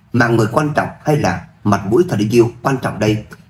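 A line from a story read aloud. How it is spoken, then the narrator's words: Cold question. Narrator (Vietnamese): Lâm Minh lạnh lùng hỏi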